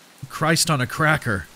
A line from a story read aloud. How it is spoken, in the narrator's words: I muttered, more to myself than to my friends